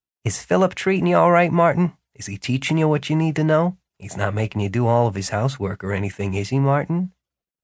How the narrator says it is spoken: quietly enough that Philip couldn't hear, but without whispering, asked

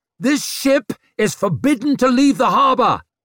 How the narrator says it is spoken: roared Leo, gritting his teeth

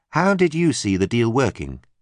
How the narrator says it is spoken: she asked

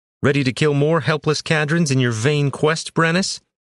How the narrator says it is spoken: Roshan shouted over the screaming peasants

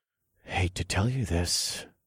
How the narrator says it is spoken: whispered as boiling determination coursed through my veins like a river in hell

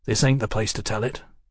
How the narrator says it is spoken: Mallory muttered

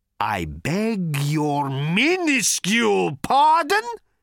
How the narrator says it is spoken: roared Thor

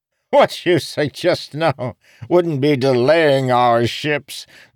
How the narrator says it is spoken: the leftmost regent laughed

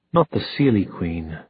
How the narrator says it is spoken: he said

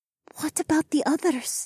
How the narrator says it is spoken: She whispered

